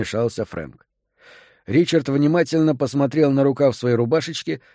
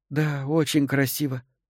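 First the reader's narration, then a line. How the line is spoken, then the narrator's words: Tearful, tender. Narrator (Russian): сквозь слезы ласково улыбнулась Элизабет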